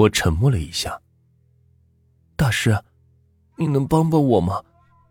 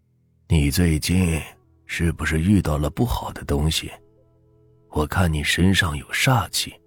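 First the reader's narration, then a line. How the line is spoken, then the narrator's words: Soft-spoken. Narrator (Chinese): 轻声的说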